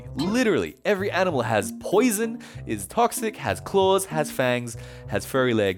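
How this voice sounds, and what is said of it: Australian accent. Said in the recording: “my parents and I moved back to Australia, as you can tell from the accent”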